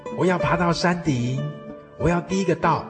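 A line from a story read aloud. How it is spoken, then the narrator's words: Shouting. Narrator (Chinese): 村长大叫说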